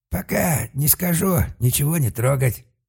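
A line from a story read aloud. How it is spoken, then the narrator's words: Growl. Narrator (Russian): рыкнул на Малка господин Лок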